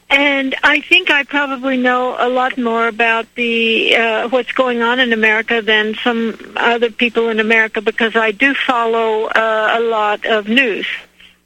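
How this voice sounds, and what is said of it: American accent. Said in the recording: “I'm an American. You maybe can hear from my accent.”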